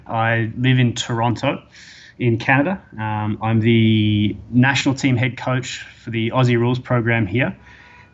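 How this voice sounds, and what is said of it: Australian accent. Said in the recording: “I'm an Australian, obviously. You'll tell by my accent.”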